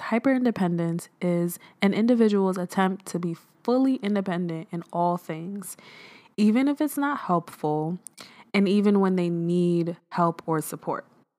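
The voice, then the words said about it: Sick voice affected by cough. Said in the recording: “my voice sounds crazy today. I woke up with a cough, and I'm not feeling too great”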